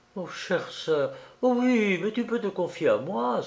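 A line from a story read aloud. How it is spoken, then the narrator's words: Exclaimed. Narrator (French): s'écria Marguerite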